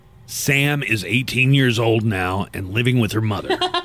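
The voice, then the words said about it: Imitates another person's voice. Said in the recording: “is that your impression? ... yeah, it's my impression of Charlie Sheen.”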